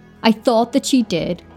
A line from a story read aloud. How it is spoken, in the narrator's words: as his voice trembled